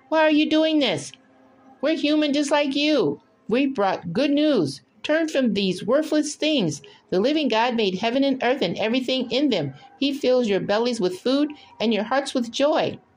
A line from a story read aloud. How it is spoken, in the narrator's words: they shouted